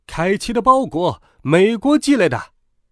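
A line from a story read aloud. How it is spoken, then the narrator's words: Shouting. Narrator (Chinese): 他大喊着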